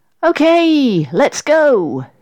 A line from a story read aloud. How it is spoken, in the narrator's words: shouted Sarah happily